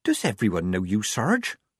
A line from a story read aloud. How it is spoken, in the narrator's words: whispered Polly